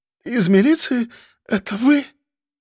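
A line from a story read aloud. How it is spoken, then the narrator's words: Breathed out. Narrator (Russian): Выдохнула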